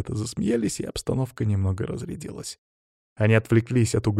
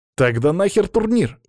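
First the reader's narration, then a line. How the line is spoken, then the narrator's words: Exclamation. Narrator (Russian): воскликнул Стас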